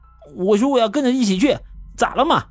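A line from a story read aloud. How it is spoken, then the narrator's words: Angry defiant shouting. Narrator (Chinese): 这小子像是吃了火药一样，敢对胡老头吼了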